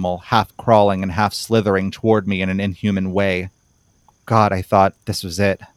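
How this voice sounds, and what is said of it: Usual voice. Nothing is said of it.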